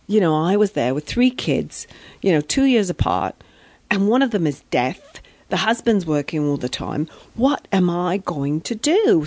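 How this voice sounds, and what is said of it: Put-on English accent. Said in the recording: “I'm going into the English accent now because it comes automatically”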